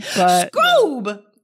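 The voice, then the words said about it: Shaggy cartoon character impression. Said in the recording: “my best Shaggy impression”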